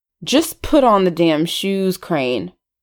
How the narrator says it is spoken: saying through gritted teeth

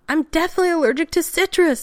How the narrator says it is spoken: McKay almost shrieked

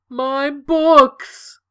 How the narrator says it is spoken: The cabbie wailed

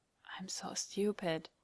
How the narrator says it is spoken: Dean whispered beneath his breath

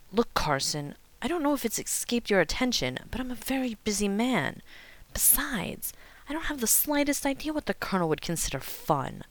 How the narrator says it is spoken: Rodney hissed

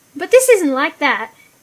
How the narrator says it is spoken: he said hastily

